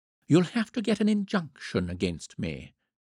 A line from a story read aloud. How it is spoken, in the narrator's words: she suggested cheerfully